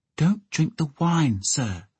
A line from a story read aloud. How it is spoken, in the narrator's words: Egg whispered to him